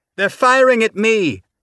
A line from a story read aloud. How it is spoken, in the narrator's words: Tanaka shouted back